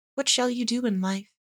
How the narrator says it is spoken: said Dorothea timidly

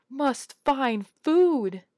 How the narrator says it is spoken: swinging his arms madly as he ran from the room, yelling

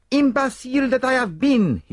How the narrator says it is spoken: he cried

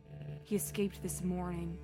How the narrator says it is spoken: she said quietly

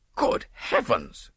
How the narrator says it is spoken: cried the distracted nobleman

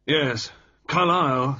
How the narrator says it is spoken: said Carrington gruffly

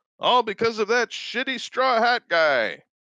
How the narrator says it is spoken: he shouts

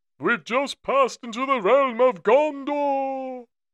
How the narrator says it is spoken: Gandalf, while riding, begins to shout

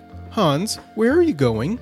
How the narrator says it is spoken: a small tabby cat, which said quite kindly

